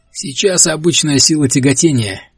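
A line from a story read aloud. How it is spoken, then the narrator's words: Cheerful. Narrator (Russian): весело сказал Генри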